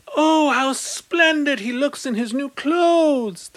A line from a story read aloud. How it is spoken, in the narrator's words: the people cried